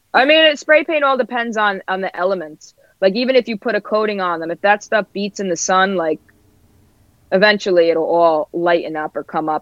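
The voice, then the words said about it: Brooklyn / New Jersey accent. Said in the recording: “I'm loving your accent... Do you think I have a thick accent?... It's very like Brooklyn, basically... I did like the Jersey Brooklyn like loop, so it's probably a mix of both.”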